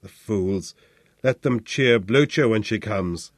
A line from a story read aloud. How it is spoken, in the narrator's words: growled